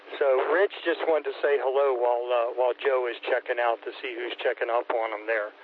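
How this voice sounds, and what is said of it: Philadelphia-Delaware regional accent. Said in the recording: “Got a strange accent ... the accent is a slur between Philadelphia and Delaware”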